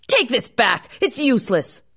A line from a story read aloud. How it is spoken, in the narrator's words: shouting